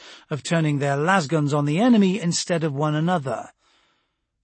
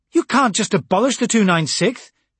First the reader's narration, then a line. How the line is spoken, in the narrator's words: she almost shouted